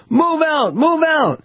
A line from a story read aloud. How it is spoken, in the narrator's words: the crowd was incensed and yelled